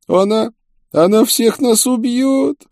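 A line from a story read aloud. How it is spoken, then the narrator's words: Moaning and crying. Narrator (Russian): простонал Мануэль и, как обычно, заплакал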